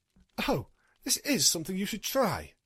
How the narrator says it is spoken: Luna said excitedly

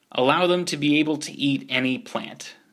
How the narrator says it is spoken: Accord said

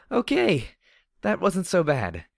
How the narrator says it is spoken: I said with a laugh

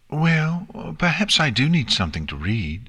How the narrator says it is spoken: said calmly

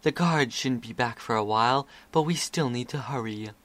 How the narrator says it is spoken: Crystal Ball whispered

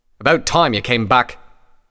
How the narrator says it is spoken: Redbrand snapped at her

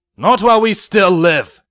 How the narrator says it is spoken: one of them shouted

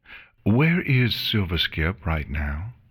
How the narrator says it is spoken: she said calmly

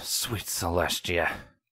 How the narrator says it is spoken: Longshot muttered

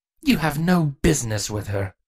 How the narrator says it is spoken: Avia spat

